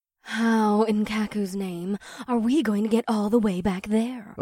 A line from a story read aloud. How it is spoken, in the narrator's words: Owara hissed